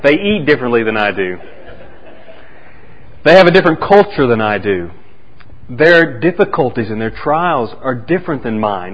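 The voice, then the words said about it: Thick Oklahoma accent. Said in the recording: “a thick Oklahoma accent like I do”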